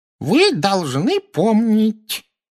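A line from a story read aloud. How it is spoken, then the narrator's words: Squeaky little man's voice. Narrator (Russian): пропищал малорослый профессор Флитвик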